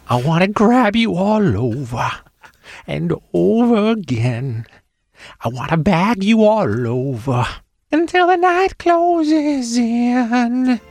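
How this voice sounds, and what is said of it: Sung imitation of another person's voice. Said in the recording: “Good Sandler impression. ... Kind of nailed it. ... Can't tell who was who there for a minute, so that was very good.”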